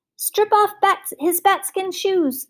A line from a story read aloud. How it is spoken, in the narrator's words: shouted the will-o'-the-wisp